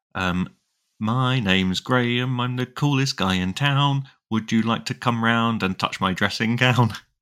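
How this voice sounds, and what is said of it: Northern English accent, singing. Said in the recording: “insofar as it was my accent, yes ... you have to leave the north”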